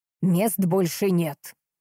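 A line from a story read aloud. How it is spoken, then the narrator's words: Snarled through gritted teeth. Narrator (Russian): процедила она, едва не оскалившись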